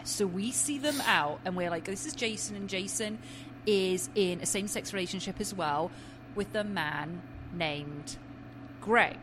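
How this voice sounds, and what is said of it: English accent. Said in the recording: “my accent ... In England, we say Craig.”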